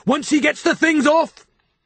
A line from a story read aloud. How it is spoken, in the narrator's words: said Jaffers loudly